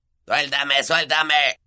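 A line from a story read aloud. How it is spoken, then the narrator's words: Gnome shrieking. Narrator (Spanish): chillaba el gnomo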